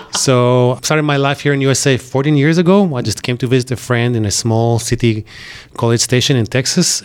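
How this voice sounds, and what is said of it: Israeli accent. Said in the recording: “I'm originally from Israel. You can hear my accent, right?”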